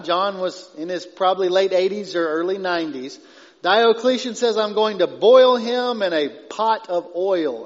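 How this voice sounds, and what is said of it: East Texas accent. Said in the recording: “I want to say "boil in oil," but I get made fun of for my East Texas accent.”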